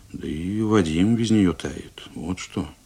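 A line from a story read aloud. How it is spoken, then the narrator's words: Quiet, meaningful. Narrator (Russian): Телегин тихо и значительно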